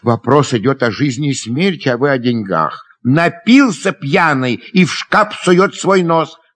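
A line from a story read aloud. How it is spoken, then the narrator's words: Angry shout. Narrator (Russian): крикнул Дашенька, сердито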